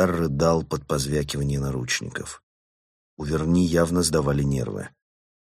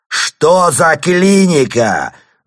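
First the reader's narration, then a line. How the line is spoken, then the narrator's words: Yelling over wailing. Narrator (Russian): заорал он, чтобы перекрыть стенание Бодимодера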